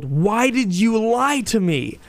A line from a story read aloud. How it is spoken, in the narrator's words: she screamed, and two, she yelled